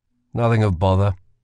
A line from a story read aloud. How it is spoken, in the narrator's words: said Kell